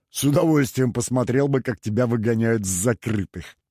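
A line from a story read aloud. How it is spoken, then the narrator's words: Old man laughing. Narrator (Russian): рассмеялся старый маршал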